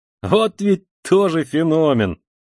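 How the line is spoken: Student exclaims, then laughs. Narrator (Russian): вскричал студент и захохотал

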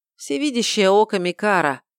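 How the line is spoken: Reluctant admission with heavy sigh. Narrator (Russian): тяжело вздохнув, расстался с секретом

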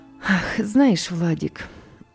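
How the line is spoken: Mother sighing. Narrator (Russian): вздохнула мама

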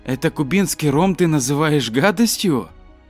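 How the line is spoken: Exclaimed. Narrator (Russian): Лев воскликнул

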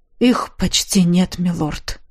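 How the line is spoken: Quiet warrior. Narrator (Russian): тихо отозвался незнакомый воин

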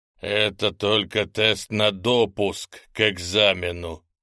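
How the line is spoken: Growled. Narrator (Russian): прорычал тем временем Гриня

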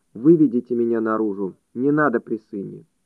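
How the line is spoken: Calm speech. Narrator (Russian): Гриша спокойно проговорил

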